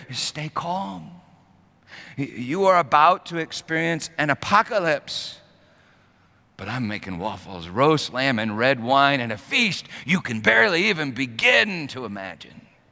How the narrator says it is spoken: the word of God is whispering in your ear

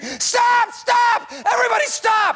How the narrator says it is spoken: freaked, I panicked, and I screamed

